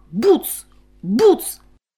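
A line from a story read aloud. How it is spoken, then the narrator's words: Very angry shout. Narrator (Ukrainian): дуже сердито вигукнув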